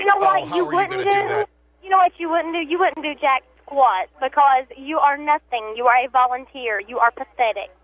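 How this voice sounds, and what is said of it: Regional accent. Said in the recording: “I'm proud of my accent. I'm proud of where I come from. ... Oh, it's an accent.”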